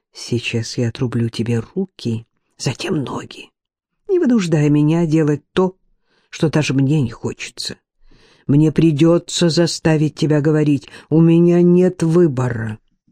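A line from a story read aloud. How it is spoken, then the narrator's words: Deceptively soft whisper. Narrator (Russian): Драго обманчиво мягко прошептал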